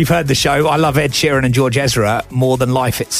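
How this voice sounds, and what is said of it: Usual voice. Nothing is said of it.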